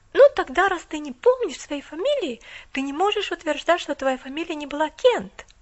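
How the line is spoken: Exclaimed. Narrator (Russian): воскликнула она

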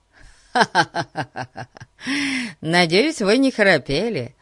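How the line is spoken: Laughing. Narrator (Russian): рассмеялся Фати

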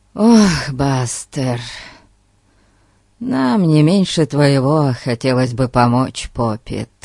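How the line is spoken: Sighing. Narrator (Russian): Вздохнул Фати

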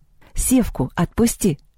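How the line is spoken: Calm. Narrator (Russian): спокойно сказала Лёля

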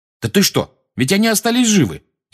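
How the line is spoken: Angry objection. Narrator (Russian): сердито возразил Фред

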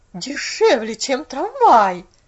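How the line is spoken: Bewildered exclamation. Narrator (Russian): воскликнула миссис Керри в недоумении

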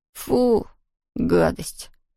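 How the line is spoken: Groan. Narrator (Russian): простонал Том

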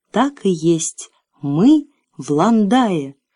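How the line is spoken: Slow, almost solemn. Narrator (Russian): медленно и почти торжественно произнес, обращаясь к детям

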